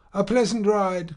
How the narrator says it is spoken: cried Monsieur Homais

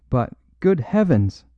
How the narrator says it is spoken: cried the Duchess, almost in hysterics

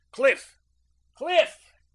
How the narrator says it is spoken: he shouted

